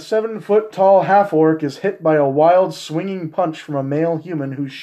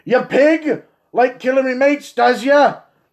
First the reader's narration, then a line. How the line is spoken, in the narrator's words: a shout